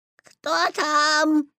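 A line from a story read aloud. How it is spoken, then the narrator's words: Imitating grandmother's voice. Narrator (Russian): спросил Петя, стараясь говорить бабушкиным голосом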